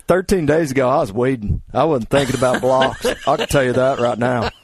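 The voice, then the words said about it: Imitates another person's voice. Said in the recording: “That's a pretty good Brett Favre. ... Another impersonation.”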